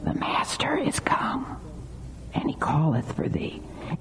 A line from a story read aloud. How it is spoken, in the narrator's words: She whispers and says